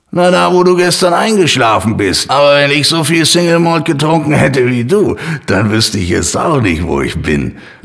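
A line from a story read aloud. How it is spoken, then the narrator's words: Stranger laughing. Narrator (German): lachte ihn der fremde Mann an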